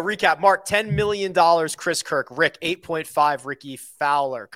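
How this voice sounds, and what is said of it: Good impression of Shooter McGavin. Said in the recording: “That's a good impersonation. ... it's Shooter McGavin.”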